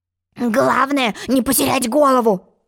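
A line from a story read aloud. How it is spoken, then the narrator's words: Grumbling. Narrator (Russian): бурчал Тик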